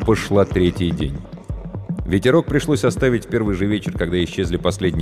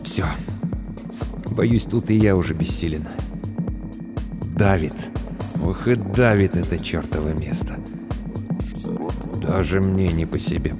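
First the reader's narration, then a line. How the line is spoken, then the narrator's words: Mutter. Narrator (Russian): пробормотал Тахашвили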